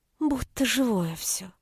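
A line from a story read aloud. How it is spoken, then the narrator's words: Whisper. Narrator (Russian): прошептала она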